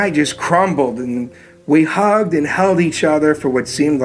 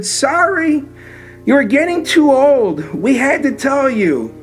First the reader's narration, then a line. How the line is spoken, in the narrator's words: she just cried and she said